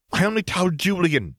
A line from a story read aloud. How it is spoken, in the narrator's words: she cried